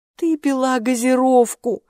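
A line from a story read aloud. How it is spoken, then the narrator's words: Exclaiming. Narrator (Russian): воскликнула она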